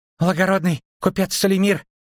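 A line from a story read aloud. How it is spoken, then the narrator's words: Dwarf breathing out words. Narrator (Russian): выдохнул гном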